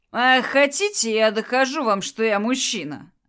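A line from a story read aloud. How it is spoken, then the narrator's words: Laughing loudly, teasing. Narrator (Russian): хохотал он, видя, как она краснеет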